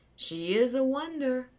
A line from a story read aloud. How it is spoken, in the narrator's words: Charlie said dreamily